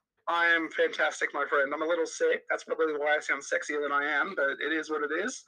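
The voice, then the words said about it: Australian accent. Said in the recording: “this man's sexy, sexy Australian accent”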